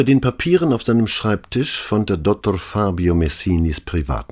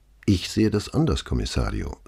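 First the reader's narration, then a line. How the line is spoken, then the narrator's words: Plain. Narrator (German): sagte Signorina Eletta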